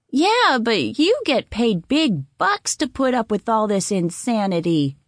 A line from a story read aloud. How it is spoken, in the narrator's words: grumbled